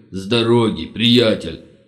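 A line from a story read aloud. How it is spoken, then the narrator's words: Impatient loud bark. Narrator (Russian): Гаркнул Верзила, которому не терпелось помочь товарищу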